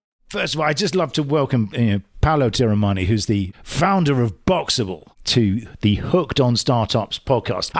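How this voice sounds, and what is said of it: English accent. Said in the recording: “my English accent ... I may be slightly invulnerable to your accent.”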